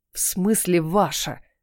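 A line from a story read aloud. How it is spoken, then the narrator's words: Hiss. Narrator (Russian): прошипел принц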